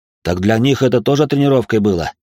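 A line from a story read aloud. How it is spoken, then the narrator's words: Snorting. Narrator (Russian): хмыкнул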